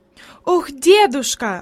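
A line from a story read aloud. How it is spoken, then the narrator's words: Exclamation. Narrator (Russian): воскликнула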